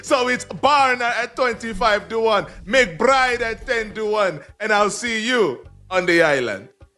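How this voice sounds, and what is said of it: Island accent. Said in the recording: “the way you say some words ... It is a tour de force ... It's my island accent. ... It's very good.”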